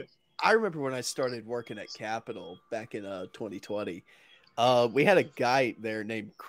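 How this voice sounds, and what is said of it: Usual voice. Nothing is said of it.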